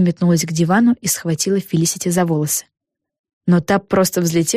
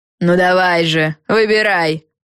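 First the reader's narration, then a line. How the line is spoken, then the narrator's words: Barked from above. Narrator (Russian): рявкнула сверху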